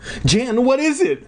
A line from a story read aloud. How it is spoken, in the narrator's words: I cried